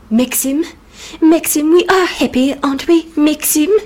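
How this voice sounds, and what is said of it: Deliberately bad imitation of an actress. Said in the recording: “bringing out my worst Joan Fontaine accent”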